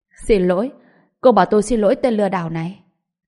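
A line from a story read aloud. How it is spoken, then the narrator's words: Cold mocking sneer. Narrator (Vietnamese): Đới anh Tuấn cười mỉa mai với một sự lạnh lùng, hung dữ nơi khóe miệng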